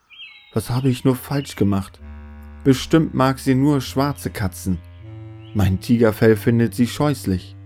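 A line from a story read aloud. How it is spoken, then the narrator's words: Sobbing. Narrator (German): Er schluchzte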